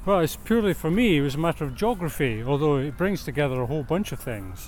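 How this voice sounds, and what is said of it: Scottish accent. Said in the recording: “Your accent certainly suggests you're not from London originally ... I grew up in Scotland”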